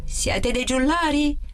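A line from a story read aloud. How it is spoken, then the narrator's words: Guard yelling again. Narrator (Italian): urlò di nuovo il guardiano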